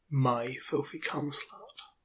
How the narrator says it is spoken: whispers to me

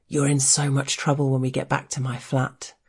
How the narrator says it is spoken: in a half murmur

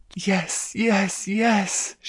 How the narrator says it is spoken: she moaned

